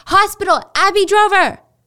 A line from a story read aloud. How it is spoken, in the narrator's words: screamed